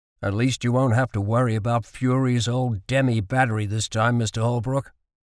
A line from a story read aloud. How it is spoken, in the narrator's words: said Carlyle